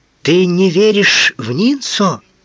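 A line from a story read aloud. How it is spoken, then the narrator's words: Desperate exclamation. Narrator (Russian): с отчаянием воскликнула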